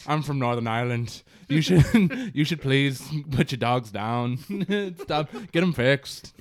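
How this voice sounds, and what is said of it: Put-on Northern Irish accent. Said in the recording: “That was really good... probably one of my better too. Accents.”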